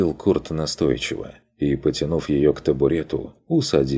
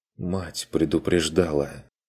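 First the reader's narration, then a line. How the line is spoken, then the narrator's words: Quiet. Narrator (Russian): Тихо проронила она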